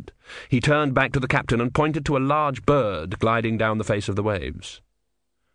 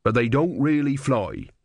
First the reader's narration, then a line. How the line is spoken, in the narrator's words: he added quickly